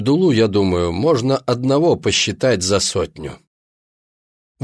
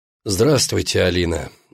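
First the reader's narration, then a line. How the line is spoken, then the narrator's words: Tired. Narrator (Russian): устало сказал кардинал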